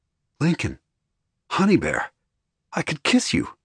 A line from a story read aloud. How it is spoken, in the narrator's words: I said excitedly